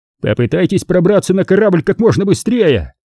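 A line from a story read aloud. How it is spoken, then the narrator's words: Shout. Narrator (Russian): крикнул Грин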